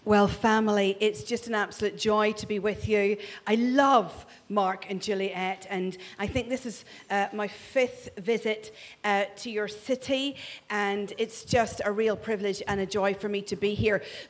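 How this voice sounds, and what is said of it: Northern Irish Ulster accent. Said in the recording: “this is not a Glasgow accent. This is an accent from God's homeland ... That's Northern Ireland ... he speaks in an Ulster accent”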